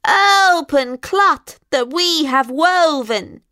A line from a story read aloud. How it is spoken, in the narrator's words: screeched the witches